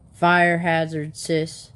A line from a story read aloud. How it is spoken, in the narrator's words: the man grunted